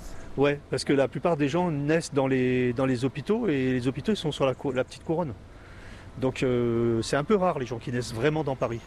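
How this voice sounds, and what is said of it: Parisian French accent. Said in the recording (French): “Vous n'avez pas l'accent créole quand vous parlez ... Et j'ai gardé mon accent parisien”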